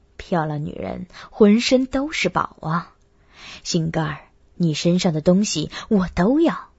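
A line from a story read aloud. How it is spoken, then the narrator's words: Low voice. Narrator (Chinese): 低声道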